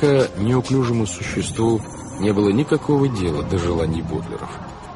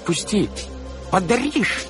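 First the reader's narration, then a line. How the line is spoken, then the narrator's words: Tiny squeak. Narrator (Russian): пискнуло солнышко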